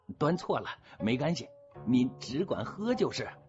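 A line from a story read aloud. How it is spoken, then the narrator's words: Laughing. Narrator (Chinese): 又一个人笑着说了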